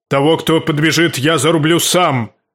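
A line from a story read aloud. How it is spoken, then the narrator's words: Roaring. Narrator (Russian): проревел он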